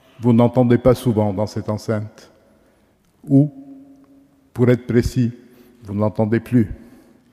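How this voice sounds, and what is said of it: Accent with lightly rolled r. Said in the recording (French): “faisant résonner mon accent... les roulements de langue, cet accent... ce léger roulement”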